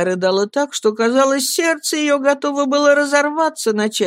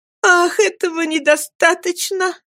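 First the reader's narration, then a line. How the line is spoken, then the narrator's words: Shout. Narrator (Russian): закричала Эми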